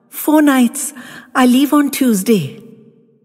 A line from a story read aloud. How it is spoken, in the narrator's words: I spluttered out